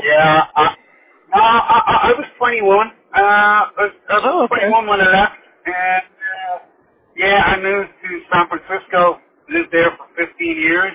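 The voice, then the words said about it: Irish accent. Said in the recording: “Is that in Ireland? ... I can definitely tell the accent ... I could definitely tell by the accent.”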